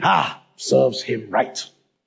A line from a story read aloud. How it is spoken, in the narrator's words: scoffing